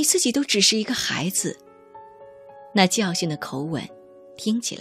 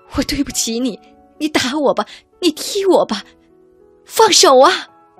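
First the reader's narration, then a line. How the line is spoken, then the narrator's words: Piercing heartfelt scream. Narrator (Chinese): 从肺腑发出的尖锐喊叫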